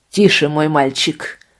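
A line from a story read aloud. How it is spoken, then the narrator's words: Sharp commanding tone. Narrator (Russian): ответил он резким повелительным тоном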